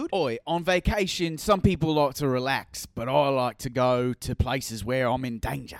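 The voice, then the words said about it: Put-on Australian accent. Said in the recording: “You get- are really good at accents. You cannot distinguish between your English and your Australian, but that was good... Australian... I don't even think you're nailing an Australian one”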